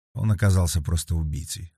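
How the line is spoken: Calm. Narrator (Russian): спокойно ответил Вербин

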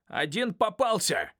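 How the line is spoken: Shouted to accomplices. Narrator (Russian): крикнул он сообщникам

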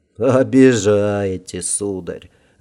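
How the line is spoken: Laughing emperor. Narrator (Russian): Рассмеялся император

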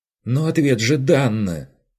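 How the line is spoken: Vexed exclamation. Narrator (Russian): Воскликнула она раздосадованно

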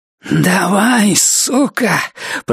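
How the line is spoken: Growled. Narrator (Russian): прорычала она

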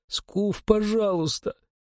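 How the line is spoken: Pleading rector. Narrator (Russian): взмолился ректор

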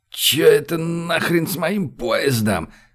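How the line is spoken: Sudden roar. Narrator (Russian): взревел вдруг он

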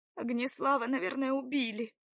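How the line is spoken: Sobbing. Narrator (Russian): продолжала всхлипывать Белава

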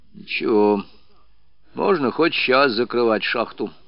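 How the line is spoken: Calm old man. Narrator (Russian): спокойно ответил старик

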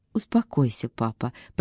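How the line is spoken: Muttered. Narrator (Russian): пробормотала Эвелина

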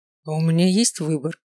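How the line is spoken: Tired question. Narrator (Russian): устало спросил

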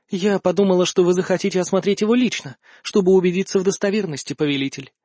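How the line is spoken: Calm. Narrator (Russian): спокойно сказала Альканиэль в ответ на мое изумление

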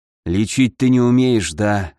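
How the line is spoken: Sighing. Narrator (Russian): вздохнул Ламар

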